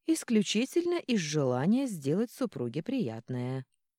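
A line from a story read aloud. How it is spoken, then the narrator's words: Calm tone. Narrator (Russian): спокойным тоном отозвался Таиль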